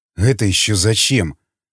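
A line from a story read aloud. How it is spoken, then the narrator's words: Wary mutter. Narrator (Russian): настороженно пробормотал Васнецов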